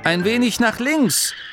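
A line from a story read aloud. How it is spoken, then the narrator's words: Calling out. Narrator (German): rief Angerloh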